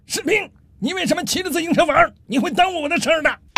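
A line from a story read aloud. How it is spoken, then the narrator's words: Angry shouting. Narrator (Chinese): 这中校安德烈非常生气，打开窗户冲楼下喊道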